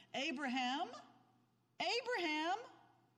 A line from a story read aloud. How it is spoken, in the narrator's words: the Lord's messenger called out to Abraham from heaven